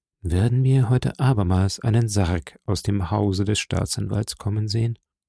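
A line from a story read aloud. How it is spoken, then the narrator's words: Very quiet question. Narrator (German): die Nachbarn fragten sich ganz leise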